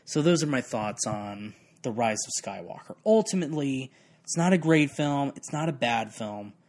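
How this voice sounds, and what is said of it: Strained, fading voice. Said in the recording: “I am losing my voice”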